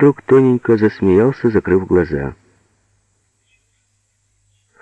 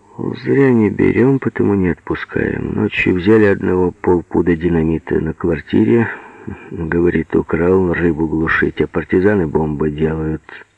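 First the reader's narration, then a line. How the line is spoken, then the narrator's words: Said calmly. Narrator (Russian): он спокойно сказал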